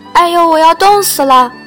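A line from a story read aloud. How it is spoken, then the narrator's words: Freezing girl crying, shouting. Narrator (Chinese): 冉尼亚……被冻得一边哭一边叫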